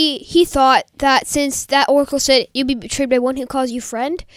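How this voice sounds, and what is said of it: Usual voice. Nothing is said of it.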